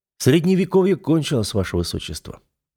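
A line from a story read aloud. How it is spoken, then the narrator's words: Insolent yet polite. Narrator (Russian): нагло, но весьма вежливым тоном ответил я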